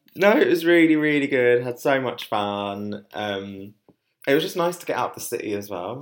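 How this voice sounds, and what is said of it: Strained, hoarse voice. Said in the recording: “my voice went a bit then... My voice is still recovering slightly from it”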